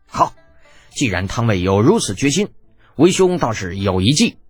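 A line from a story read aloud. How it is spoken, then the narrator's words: Stern, sharp. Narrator (Chinese): 金俊英心中大喜过望，厉声道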